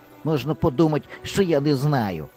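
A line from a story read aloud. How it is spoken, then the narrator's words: Angry grumble. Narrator (Ukrainian): сердито буркнув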